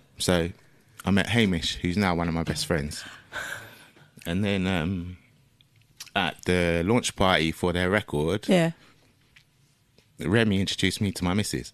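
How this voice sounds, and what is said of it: Emotional, choked-up voice. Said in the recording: “Are you getting emotional? ... I can hear it in your voice.”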